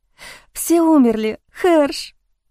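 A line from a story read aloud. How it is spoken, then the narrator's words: Sobbing. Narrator (Russian): Я разрыдалась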